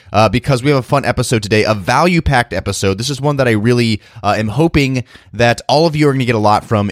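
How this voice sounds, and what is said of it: Weak voice from a cold. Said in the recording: “excuse my voice again, guys. It's a little bit weak, if you might be able to hear it. Still have a cold”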